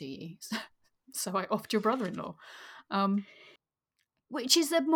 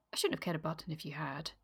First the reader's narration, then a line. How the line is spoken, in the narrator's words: she said calmly